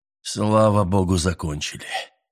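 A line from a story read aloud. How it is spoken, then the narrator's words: Tired. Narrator (Russian): произнес он устало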